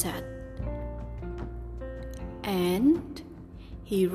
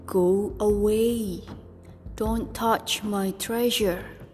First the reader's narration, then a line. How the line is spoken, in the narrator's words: the lobster growled